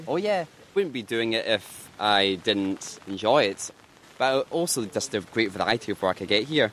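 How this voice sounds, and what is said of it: Glaswegian Scottish accent. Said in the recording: “That's in Glasgow, as you might be able to tell from my accent.”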